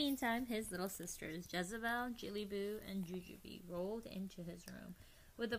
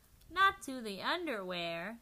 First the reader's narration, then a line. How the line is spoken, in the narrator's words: Skippito exclaimed